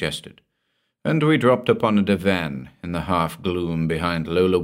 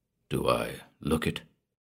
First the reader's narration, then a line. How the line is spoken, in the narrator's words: invited huskily